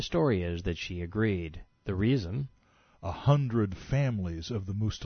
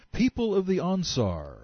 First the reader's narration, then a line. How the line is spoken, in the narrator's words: Juhani shouted